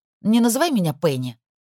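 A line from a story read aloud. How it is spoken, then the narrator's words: Sharp reply. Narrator (Russian): резко ответила Пенелопа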